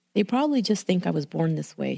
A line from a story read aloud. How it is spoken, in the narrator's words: she said